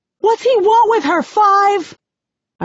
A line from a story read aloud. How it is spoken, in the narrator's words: I scream, feeling a fresh rush of panic